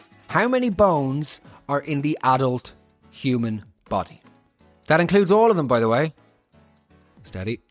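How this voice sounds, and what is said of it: Put-on English accent. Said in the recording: “the English accent”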